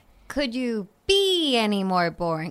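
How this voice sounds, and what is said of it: Sitcom character catchphrase impression. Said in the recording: “a pretty good Chandler impression”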